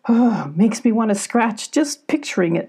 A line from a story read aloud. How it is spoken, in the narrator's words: chuckled Billy